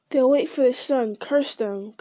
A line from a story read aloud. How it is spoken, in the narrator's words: growled one of the guards